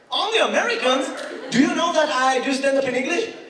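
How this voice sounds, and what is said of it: Non-native accent speaking English. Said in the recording (Hebrew): “You need to work on your accent ... האנגלית שלי, תמיד אומרים לי, אתה צריך לעבוד על המבטא”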